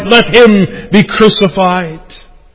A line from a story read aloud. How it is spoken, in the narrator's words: the crowd cried